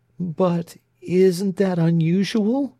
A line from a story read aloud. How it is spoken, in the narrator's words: inquired in a tremulous voice